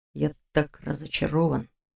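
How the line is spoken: Whispered, growing displeasure. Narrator (Russian): Прошептал он, хмурясь все сильнее

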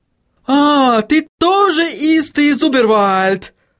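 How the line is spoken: Joyful exclamation. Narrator (Russian): Радостно воскликнул Отто

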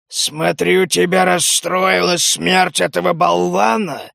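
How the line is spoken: Mocking growl while transforming. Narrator (Russian): Трансформируясь, насмешливо прорычал Ульф

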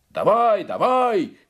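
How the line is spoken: Crowd shouting. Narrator (Russian): кричали русские

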